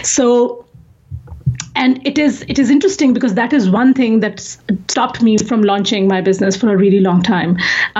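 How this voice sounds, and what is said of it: Strong accent, hard to understand. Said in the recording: “my accent ... how horrible my accent is ... it's hard for them to understand ... I could not understand a word because of your accent ... the way I talk”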